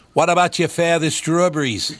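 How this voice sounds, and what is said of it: Bad put-on Maine accent. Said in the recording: “That is the worst Maine accent I've ever heard ... Yeah, it's like New Jersey ... It does sound like Mayor Quimby ... That's more of a roadie accent, actually.”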